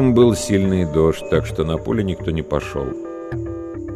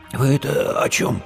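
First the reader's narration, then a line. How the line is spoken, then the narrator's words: Hoarse, strained voice. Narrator (Russian): прохрипел Димка севшим голосом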